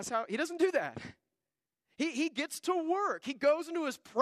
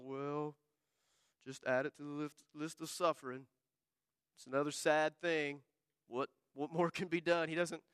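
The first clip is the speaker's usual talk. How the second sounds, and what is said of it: Gloomy Eeyore cartoon voice. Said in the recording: “like Eeyore ... my impression of Eeyore”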